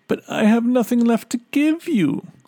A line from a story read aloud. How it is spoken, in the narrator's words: sobbed the poor little girl